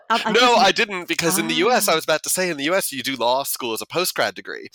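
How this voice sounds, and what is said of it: American accent. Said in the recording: “you can tell from my accent that was in the US”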